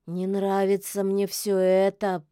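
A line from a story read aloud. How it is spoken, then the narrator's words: Drawling. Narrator (Russian): протянул кот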